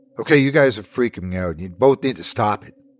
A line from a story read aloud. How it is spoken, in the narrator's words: snapped Lena